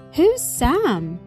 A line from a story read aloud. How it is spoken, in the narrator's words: the anxious birds cried out